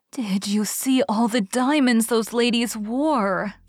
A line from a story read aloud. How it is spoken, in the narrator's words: sighed Jane